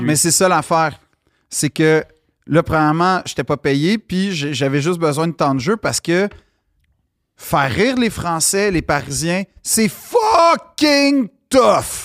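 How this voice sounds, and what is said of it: Non-Parisian French accent. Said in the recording (French): “j'ai un accent. C'est pas un personnage. Ça va être ça tout le long”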